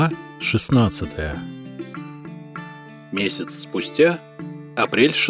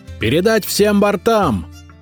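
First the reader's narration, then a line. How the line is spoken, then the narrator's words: Shouted. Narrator (Russian): крикнул Святослав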